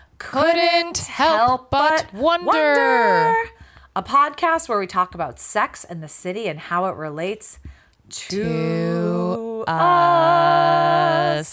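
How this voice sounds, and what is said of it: Sing-song lilt. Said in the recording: “That was a little lilt there.”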